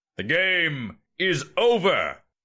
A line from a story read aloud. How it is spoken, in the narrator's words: shouted the emperor, barely heard over the applause